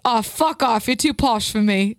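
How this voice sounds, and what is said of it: Attempted Irish accent sounding British. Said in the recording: “you just did a ... British. I can't get the Irish accent down.”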